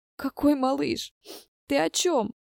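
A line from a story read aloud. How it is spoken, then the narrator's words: Sobbing. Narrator (Russian): всхлипнула Катя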